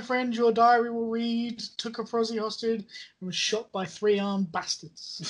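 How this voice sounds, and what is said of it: Put-on Sheffield accent, fairly authentic. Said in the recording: “Sheffield accent, it sounds pretty authentic as well. ... I got the Sheffield twang going”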